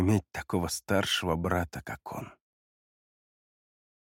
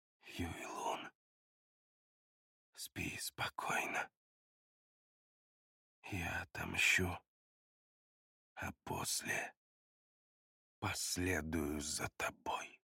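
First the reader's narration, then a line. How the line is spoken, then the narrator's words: Rapt whisper. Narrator (Russian): самозабвенно прошептал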